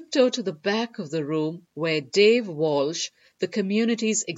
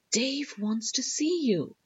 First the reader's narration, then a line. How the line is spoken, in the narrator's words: the Chicagoland manager, Wendy, taps me on the shoulder and whispers